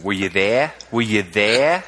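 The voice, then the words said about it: Put-on Australian accent. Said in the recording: “You got to do it in Australian accent.”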